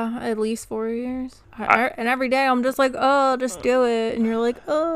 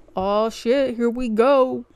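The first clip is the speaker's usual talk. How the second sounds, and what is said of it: Imitates another person's voice. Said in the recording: “that your impression of me opening the show? ... Spot on, right?”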